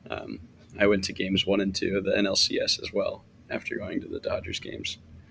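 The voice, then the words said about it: Slightly hoarse voice. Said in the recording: “You can probably tell my voice is still a little hoarse.”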